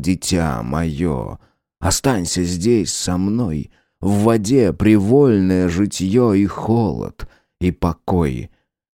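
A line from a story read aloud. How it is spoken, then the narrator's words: Silvery voice, whispering and singing. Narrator (Russian): Ее сребристый голосок мне речи странные шептал и пел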